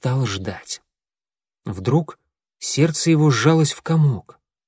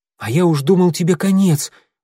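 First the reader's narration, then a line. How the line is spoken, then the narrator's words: Exclaimed. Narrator (Russian): воскликнул клубок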